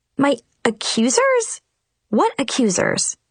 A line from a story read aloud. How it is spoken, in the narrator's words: sputtered